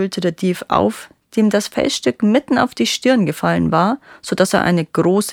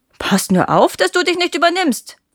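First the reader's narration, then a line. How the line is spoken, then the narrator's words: Girl calling back, laughing. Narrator (German): rief das Mädchen lachend zurück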